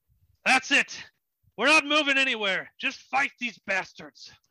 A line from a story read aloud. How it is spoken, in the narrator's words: you hear Captain Gilly yell out